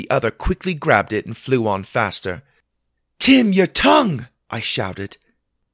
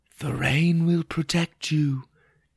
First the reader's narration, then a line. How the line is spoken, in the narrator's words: whispered